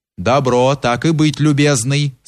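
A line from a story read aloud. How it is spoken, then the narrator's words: Plain. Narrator (Russian): сказал приказчик Кирше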